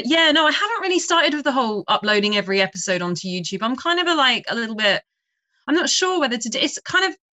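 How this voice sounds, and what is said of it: Pleasant accented speaking voice. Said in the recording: “I love your accent, by the way. I think you have an amazing voice.”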